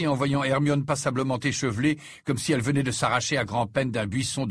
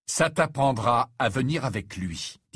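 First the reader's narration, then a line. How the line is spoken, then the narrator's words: Grave male voice. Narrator (French): dit-il d'un ton grave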